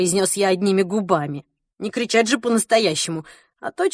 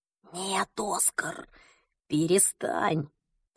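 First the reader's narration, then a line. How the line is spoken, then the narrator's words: Whispered to self. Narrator (Russian): прошептал я сам себе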